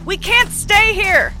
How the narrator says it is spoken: yelled

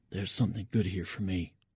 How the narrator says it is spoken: I whisper in Petrov's direction

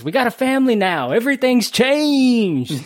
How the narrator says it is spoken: they're yelling at each other, and she goes

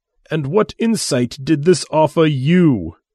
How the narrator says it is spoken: He asked, with a tightly controlled voice

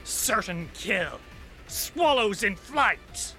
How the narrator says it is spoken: she grins as she sneers and says

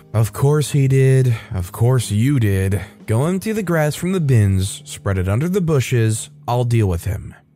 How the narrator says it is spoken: sighed and said

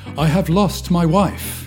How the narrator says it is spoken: No one, except John, got drunk, exclaiming

